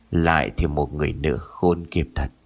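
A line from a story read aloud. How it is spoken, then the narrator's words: Beggar's quiet muttering. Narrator (Vietnamese): người ăn xin im lặng, miệng lẩm bẩm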